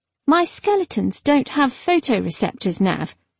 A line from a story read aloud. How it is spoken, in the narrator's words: the necromancer said calmly